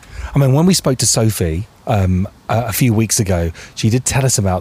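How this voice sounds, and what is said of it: Whispering. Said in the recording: “I'm whispering again. I'm doing it again.”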